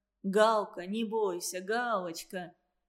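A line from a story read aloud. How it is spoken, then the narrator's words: Clear voice, hiding laughter. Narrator (Russian): Ясным голосом, скрывая смех, сказал Вадим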